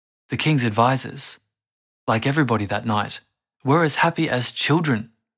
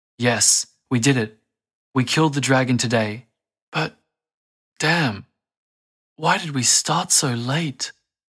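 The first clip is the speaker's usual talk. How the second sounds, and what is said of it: Broken, emotional voice. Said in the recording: “in a broken voice.”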